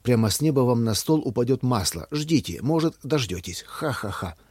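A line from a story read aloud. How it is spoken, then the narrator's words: Laughing. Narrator (Russian): рассмеялся Ваня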